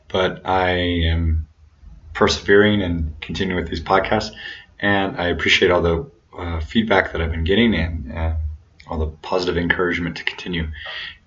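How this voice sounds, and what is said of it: Hoarse, sore-throat voice. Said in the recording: “you can hear that I have a bit of a sore throat”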